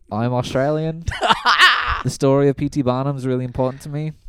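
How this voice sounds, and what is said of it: Put-on Australian accent. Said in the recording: “Australian is my best worst accent.”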